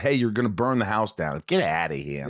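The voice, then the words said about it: Put-on New York accent. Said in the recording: “Did she have the New York accent and all that? ... Oh, yeah, she did.”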